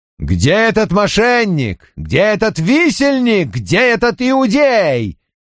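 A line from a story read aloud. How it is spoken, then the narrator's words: Thundering. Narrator (Russian): прогремел кто-то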